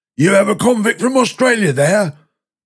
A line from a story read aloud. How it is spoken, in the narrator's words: a man shouted